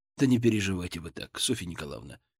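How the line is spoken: Gentle. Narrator (Russian): мягко сказал я

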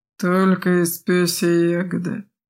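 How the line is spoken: Sudden grumble. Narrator (Russian): неожиданно пробурчал хозяин

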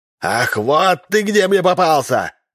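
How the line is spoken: Wild, ugly shout. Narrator (Russian): закричал Олух дурным голосом

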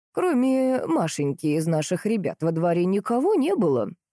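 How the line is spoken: Thoughtful. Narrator (Russian): задумчиво произнесла Глафира Григорьевна

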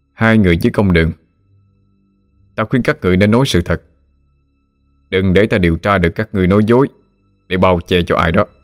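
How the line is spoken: Stern questioning. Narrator (Vietnamese): Lý Mão nghiêm giọng hỏi

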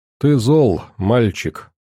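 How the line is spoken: Calm, condescending. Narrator (Russian): спокойным тоном проговорил Сет, спрятав гордое надменное выражение лица за маской снисходительности

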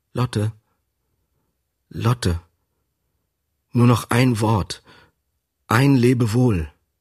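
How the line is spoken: Soft call. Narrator (German): rief mit leiser Stimme

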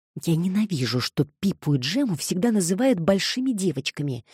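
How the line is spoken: Whisper. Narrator (Russian): шепнула Тереза, обращаясь к Николь

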